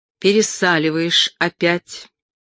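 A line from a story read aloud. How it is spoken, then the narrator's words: Clipped, emphatic. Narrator (Russian): коротко, но выразительно отчеканил он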